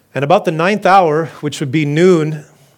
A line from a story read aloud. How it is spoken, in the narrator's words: Jesus cried out with a loud voice, saying,